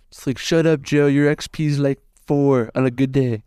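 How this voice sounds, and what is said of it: Mediocre Donald Trump impression. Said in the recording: “my Trump impression ... to give you a Trump, I give it probably 4 out of 10 ... it's a little worse than average”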